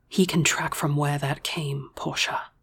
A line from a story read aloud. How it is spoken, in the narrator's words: she whispered